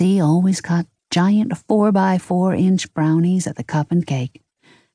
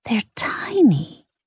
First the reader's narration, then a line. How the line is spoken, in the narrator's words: Ida hissed